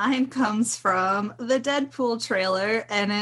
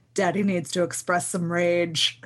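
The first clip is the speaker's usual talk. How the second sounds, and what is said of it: Deadpool impression, suddenly super serious. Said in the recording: “it's Deadpool when he gets super serious all of a sudden ... That was a great impression.”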